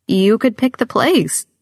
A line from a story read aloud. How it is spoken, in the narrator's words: my grandmother says, her voice pleading